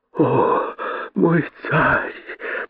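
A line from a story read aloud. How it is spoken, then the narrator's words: Moaning, poor hare. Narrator (Russian): простонал бедный косой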